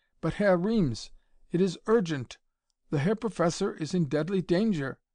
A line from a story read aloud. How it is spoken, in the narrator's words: Von Holtz said desperately